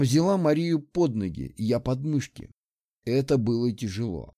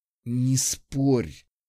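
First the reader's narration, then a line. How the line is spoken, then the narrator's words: Weak hiss. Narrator (Russian): прошипел я, чувствуя, как слабость подкашивает ноги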